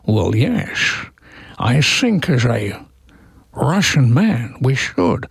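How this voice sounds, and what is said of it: Sean Connery impression, Scottish accent. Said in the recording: “Connery is like ... Sean, at least have a go at the accent.”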